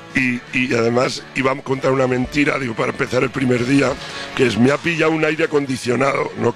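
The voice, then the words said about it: Hoarse, nearly lost voice. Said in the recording (Spanish): “esa voz como la ... tengo. Mira cómo estoy. ... estoy afónico”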